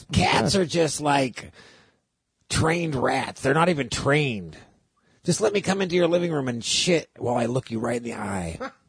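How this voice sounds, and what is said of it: Imitates another person's voice. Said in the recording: “this is going to be my impersonation of him”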